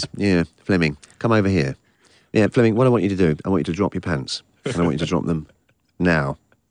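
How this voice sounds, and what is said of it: Blunt, direct Matthew Vaughn impression. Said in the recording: “I probably do an impression of Jason doing Matthew Vaughn ... That's Matthew and his very blunt, direct style”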